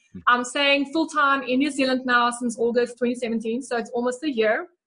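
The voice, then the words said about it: South African accent. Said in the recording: “So if you haven't picked up the South African accent yet, I am from South Africa.”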